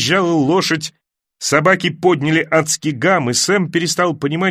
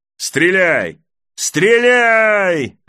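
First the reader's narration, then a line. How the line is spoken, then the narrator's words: Someone yelling. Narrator (Russian): орал кто-то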